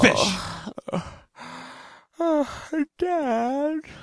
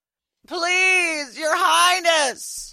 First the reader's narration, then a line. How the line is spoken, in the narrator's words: He shouted over the crashing waves and thunder